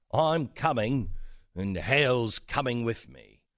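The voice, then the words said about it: Wyatt Earp in English accent. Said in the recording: “Wyatt Earp, you know, with an English accent.”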